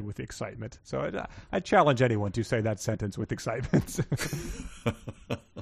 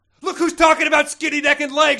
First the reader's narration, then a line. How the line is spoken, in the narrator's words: she said angrily